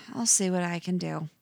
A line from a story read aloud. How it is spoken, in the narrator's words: She sighs, then says